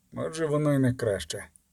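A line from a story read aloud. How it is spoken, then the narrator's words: Quiet reply. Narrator (Ukrainian): тихо відповів Геральт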